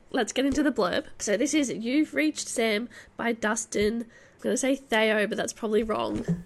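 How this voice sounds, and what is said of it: Slightly funny, sick-sounding voice. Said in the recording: “I have COVID ... My voice sounds a little bit funny”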